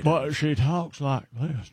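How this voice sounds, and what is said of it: Put-on Southern accent. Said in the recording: “I don't know why I'm using a southern accent.”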